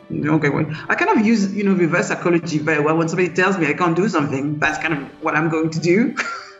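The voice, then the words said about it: Strong foreign accent. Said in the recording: “your accent is so strong”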